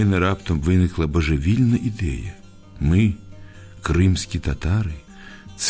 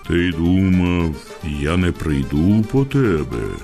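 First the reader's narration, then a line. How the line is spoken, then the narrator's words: Frightening moan, disguised voice. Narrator (Ukrainian): застогнав утретє, так страшно, як тільки міг, і зміненим голосом сказав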